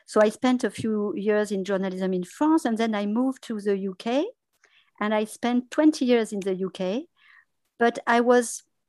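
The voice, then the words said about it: Non-native accent in English. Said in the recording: “you can hear my accent, and I have improved my English a lot”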